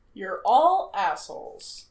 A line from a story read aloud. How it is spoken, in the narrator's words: Sam says flatly